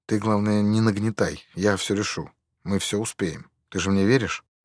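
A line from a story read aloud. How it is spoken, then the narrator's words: Gentle, muffled, hushed. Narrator (Russian): Ласково ответил он, прикрыв рот рукой, чтобы Соболенко не грел уши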